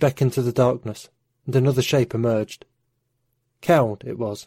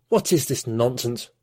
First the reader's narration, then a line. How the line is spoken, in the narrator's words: spat the legate